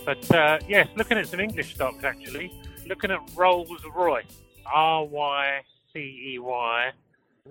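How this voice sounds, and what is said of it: English accent. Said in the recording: “even though I've got an English accent”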